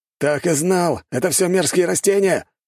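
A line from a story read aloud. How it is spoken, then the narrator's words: Shout. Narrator (Russian): выкрикнул культиватор-бунтовщик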